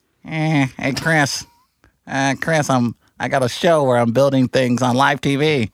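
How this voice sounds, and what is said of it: Imitates another person's voice. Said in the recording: “my Adam Carolla impersonation ... That's pretty bad.”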